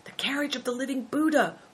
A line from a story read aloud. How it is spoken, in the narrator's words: whispered Christian